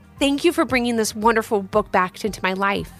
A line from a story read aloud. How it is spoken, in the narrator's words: said Mrs